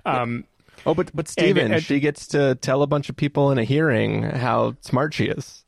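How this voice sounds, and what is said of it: Sarcastic tone. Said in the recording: “you're being sarcastic”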